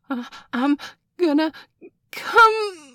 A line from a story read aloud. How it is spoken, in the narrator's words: Nurse Joy howled